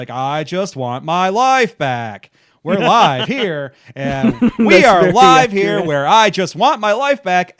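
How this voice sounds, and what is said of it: Flat newscaster voice, clenched teeth. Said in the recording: “in this episode thinks that dramatic voice inflection is just sounding like a newscaster ... talk through their teeth a lot ... keep their teeth clenched together”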